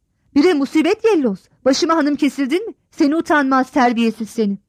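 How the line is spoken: Shouted. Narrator (Turkish): Sırrı Cemal'in yüzüne doğru bağırarak dedi ki

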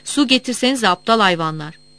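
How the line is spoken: Village barber shouting. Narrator (Turkish): Köy berberi bağırdı

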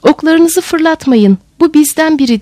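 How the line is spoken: Finally shouted. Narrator (Turkish): diye bağırdı sonunda

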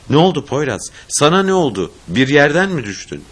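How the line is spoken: Alarmed, almost shouting. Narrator (Turkish): ellerini, yırtılmış dizlerini görünce bağırırcasına

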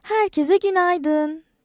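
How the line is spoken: Shouting. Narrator (Turkish): diye bağırdı

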